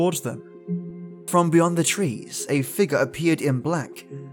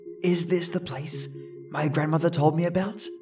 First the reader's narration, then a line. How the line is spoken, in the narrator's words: Emma whispered